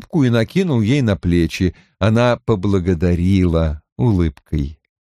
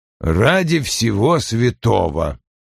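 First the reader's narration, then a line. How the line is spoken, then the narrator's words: Incredulous mutter. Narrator (Russian): с недоверием пробормотал он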